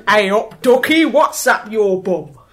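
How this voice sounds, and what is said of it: Poor put-on Midlands accent. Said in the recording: “That was terrible. ... That was my best Midlands.”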